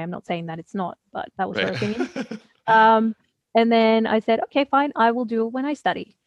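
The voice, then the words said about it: Australian accent. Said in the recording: “that's when I picked up the accent ... for anyone who isn't Australian, it sounds Australian”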